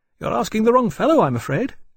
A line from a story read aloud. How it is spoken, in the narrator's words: James said cheerfully